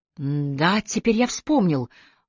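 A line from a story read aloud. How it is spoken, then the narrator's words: Excited rapid chatter. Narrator (Russian): взволнованно затараторил Ормерин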